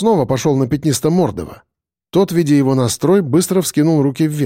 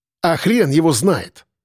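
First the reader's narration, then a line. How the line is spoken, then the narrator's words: Angry. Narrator (Russian): зло сказал Коля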